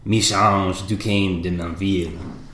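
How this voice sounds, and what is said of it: Put-on French accent. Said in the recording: “is my best French accent.”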